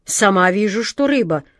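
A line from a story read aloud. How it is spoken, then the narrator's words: Growl. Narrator (Russian): прорычала Джина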